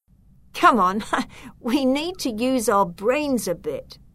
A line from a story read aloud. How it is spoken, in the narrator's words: I laughed